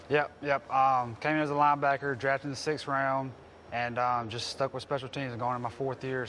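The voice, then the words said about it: Slight Mississippi accent. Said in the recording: “So you're from Mississippi. You got a little accent, huh?”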